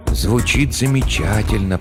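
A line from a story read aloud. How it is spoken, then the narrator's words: Whisper. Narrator (Russian): прошептал Хендрат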